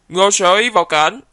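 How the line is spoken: Loud call. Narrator (Vietnamese): đạo diễn liền lớn tiếng gọi

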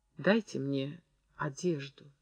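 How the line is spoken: Quiet request. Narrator (Russian): тихо попросила Зина

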